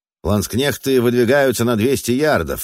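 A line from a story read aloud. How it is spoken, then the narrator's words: Barked command. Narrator (Russian): рявкнул фон Зальм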